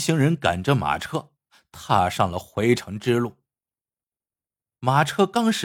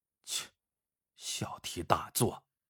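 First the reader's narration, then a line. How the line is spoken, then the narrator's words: Muttering. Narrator (Chinese): 肖永春在旁边嘀咕了一句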